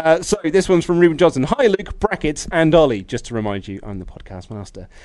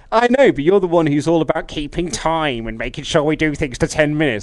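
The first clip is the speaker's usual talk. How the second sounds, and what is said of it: Imitates another person's voice. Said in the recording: “That's my pitch-perfect impression of you ... That was me doing an impression of him”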